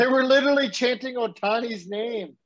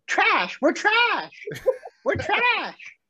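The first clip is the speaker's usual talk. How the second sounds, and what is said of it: Impression of another person. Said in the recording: “my Courtney impression real quick? Impersonation?”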